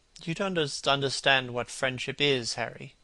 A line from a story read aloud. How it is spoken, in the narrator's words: he murmured